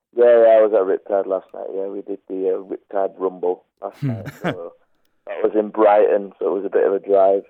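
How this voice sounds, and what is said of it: Crackly, slightly hoarse voice. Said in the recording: “My voice is a bit crackly because I only got home like 5 hours ago from the show”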